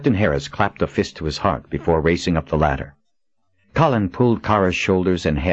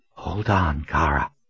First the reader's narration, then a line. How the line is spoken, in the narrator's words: she whispered